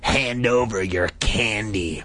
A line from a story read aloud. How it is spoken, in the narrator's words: Carly Beth snarled, surprised by the vicious tone in her voice